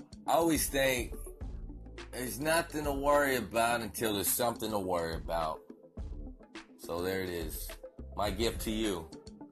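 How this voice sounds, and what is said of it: Southern American twang. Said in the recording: “hobo with the southern twang. The man with the $1 million voice”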